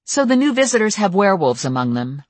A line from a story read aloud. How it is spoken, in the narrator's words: I said sharply